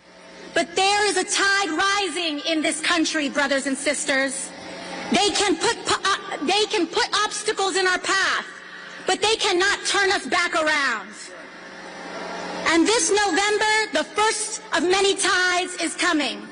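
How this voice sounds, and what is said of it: Put-on accent. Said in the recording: “she puts on another accent today speaking to people in Washington, D.C.”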